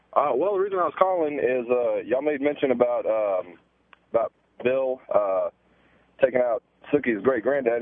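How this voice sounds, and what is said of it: Southern American accent. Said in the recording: “Southern accent”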